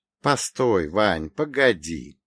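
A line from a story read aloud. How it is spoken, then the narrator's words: Laughing. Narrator (Russian): рассмеялся я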